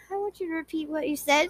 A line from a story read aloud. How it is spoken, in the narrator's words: whispered